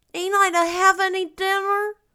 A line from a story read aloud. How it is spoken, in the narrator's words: wailed Davy